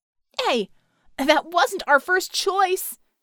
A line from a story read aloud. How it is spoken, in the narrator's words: Scope shouted